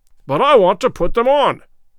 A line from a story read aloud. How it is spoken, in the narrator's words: roared Good, in nervous English